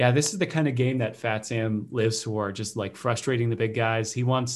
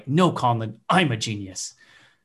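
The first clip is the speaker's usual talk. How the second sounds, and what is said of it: Imitates another person's voice. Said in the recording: “That was my Fat Sam impression.”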